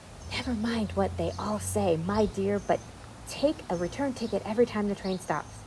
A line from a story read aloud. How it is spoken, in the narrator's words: the gentleman dressed in white paper whispered in her ear